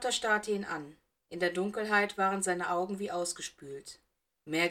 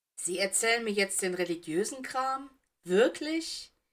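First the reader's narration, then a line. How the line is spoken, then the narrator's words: Laughing. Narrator (German): Cyrus lachte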